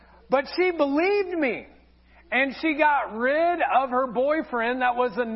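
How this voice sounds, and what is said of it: Usual voice. Nothing is said of it.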